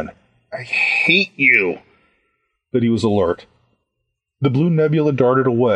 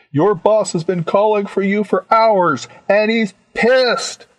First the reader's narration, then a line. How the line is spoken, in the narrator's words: I yelled